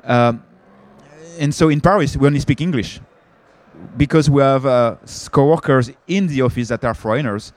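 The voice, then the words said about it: French accent in English. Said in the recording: “I'm French, I guess my accent, I cannot hide my accent.”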